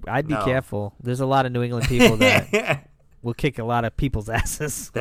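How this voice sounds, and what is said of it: Strong New England accent. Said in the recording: “He had a gnarly accent before we started this pod, and it sounded like a Mark Wahlberg ... Sounds like Mark Wahlberg ... It's the Mark Wahlberg accent.”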